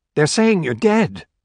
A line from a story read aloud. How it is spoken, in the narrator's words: Corey gasped, chagrined at feeling tears spring into her eyes